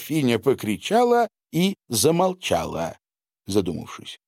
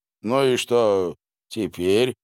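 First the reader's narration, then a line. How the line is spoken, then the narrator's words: Calm question. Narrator (Russian): спокойно спросил граф Данила, недовольно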